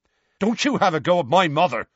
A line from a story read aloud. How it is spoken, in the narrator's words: Seamus snapped